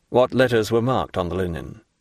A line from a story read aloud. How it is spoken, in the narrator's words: said Monte Cristo